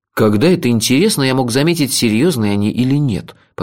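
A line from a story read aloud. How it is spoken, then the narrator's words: Grumbling. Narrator (Russian): проворчал я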